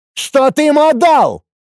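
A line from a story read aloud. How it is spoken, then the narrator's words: Alarmed yelling. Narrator (Russian): Буквально завопил встревоженный сотник Ацев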